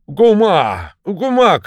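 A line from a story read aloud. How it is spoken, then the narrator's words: Shouting. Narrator (Russian): крикнул он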